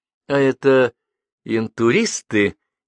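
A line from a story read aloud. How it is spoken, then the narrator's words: Uncertain question. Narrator (Russian): неуверенно спросила она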